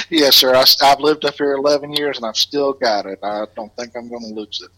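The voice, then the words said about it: Southern Alabama accent. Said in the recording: “I thought I detected an Alabama accent.”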